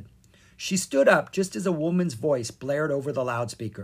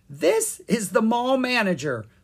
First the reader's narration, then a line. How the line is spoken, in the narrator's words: the woman said with a giggle